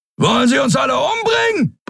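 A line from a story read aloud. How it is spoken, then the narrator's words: Roaring. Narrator (German): brüllte Sron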